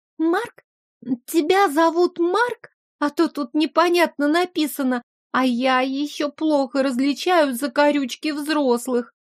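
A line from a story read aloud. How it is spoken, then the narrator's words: Uncertain little girl. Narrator (Russian): неуверенно сообщила девочка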